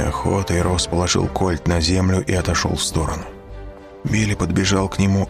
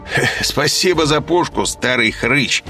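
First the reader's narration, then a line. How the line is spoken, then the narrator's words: Laughing. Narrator (Russian): сказал смеясь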